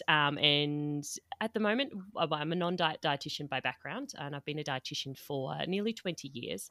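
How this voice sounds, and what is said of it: Australian accent. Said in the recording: “based in Australia, as you can tell by the accent”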